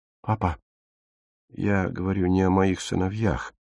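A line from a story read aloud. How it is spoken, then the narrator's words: Gentle interruption. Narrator (Russian): мягко перебила Фрида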